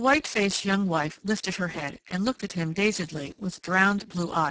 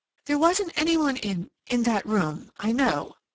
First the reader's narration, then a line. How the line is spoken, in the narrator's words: faltered